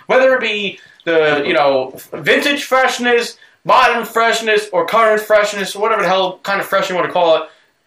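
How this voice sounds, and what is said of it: Drunk, slurred speech. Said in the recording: “I'm a little drunk and I'm slurring.”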